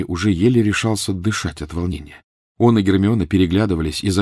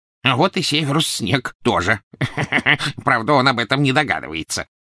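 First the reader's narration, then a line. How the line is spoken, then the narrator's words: Gloating goblin reply. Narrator (Russian): ответил Крюкохват, и оба гоблина злорадно расхохотались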